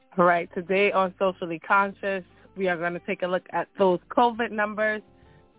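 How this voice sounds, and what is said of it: Slightly hoarse voice. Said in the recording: “I'm a little hoarse because I think of allergies are getting to me”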